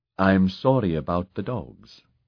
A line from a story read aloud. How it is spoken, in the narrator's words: she said